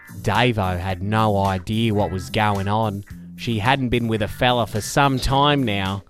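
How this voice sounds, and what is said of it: Exaggerated Australian accent. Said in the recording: “my Australian accent. I'll dial it up, obviously.”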